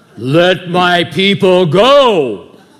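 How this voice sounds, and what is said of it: Charlton Heston impression. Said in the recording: “you know how Charlton Heston comes in, right, in the Ten Commandments? It's all flowing and stuff”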